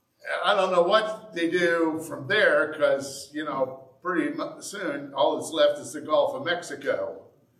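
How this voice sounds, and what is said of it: Indiana southern-tinged accent. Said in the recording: “my southern accent... I really didn't think that people in Indiana had a southern accent, but apparently we do”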